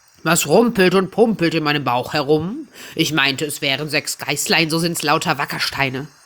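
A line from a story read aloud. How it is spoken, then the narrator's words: Calling out. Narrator (German): Da rief er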